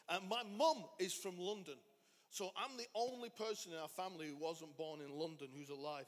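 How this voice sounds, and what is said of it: Northern English accent. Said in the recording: “So I'm from the north of England. ... That's the massive difference of accent and you can hear”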